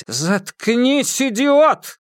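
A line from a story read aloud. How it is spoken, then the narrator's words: Sudden loud shout. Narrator (Russian): Син Цысянь внезапно громко крикнул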